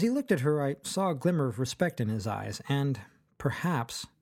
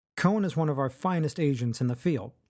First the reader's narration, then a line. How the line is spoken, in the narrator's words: Chancery said